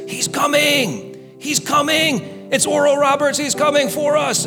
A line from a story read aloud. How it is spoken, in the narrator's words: the screaming